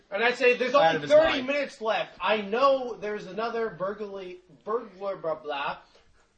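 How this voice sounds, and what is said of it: Thick put-on fantasy accent. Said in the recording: “my Strix accent is really thick sometimes”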